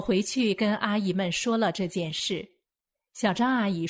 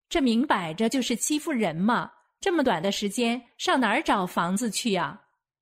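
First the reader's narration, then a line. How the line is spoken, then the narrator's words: Plain. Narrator (Chinese): 小李阿姨说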